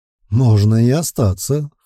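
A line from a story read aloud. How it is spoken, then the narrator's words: Snorting hmph. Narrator (Russian): хмыкнул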